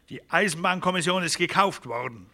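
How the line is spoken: Sharp remark. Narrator (German): bemerkte Magnus scharf

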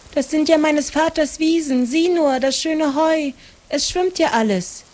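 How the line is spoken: Calling out. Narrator (German): rief Maren

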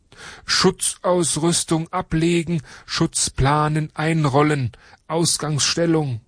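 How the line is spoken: Calling out. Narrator (German): ruft er

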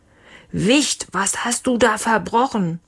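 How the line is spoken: Father bellowing. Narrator (German): Leons Papa brüllte

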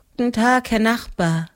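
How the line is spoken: Tired. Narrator (German): sagte sie müde

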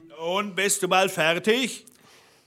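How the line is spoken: Calling from below. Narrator (German): rief der Blaubart unten

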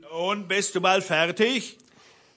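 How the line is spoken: Calling from below. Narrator (German): rief der Blaubart unten

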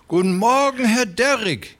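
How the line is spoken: Called out. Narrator (German): rief der Dicke

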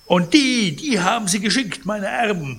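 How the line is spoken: Indignant shout. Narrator (German): rief Pons empört

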